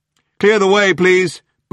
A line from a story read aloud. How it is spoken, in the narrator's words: boomed a police megaphone from the back of the crowd